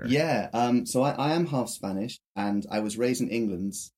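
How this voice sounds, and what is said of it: Slight British-Spanish accent. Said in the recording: “our lovely friend here has a bit of an accent. You're British and Spanish”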